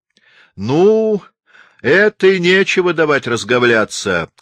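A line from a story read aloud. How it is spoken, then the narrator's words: Soldier's shout. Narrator (Russian): крикнул какой-то солдат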